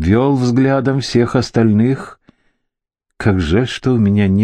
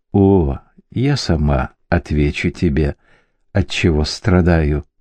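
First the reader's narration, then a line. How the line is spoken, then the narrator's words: Normal, audible voice. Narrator (Russian): промолвила Бьянка, однако говорила она нормальным голосом, так, чтобы слышали все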